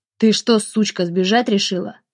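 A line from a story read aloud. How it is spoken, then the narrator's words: Angry growl. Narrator (Russian): злобно прорычал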